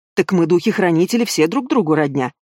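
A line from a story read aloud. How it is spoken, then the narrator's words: Old man's muffled snort. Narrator (Russian): хмыкнул в бороду дед Панас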